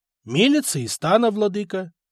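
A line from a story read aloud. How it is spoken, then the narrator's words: Elder, slightly confused. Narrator (Russian): немного растерянно ответил староста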